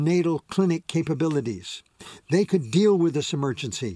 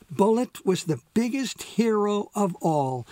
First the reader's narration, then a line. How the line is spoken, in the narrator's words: she said excitedly